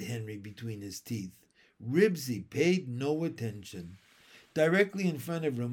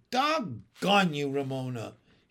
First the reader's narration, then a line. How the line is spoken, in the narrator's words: he said angrily